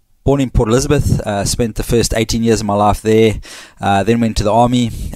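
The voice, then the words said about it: South African accent with Australian touches. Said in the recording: “There's an accent. ... South African, I'm sure you've picked it up. And my South African friends said to me I sound too Aussie now”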